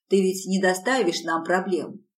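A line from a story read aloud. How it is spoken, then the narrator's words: Plain. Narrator (Russian): спросил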